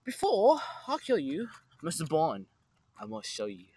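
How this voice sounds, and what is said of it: Trippy villain character voice. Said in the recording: “trippy little villain voice”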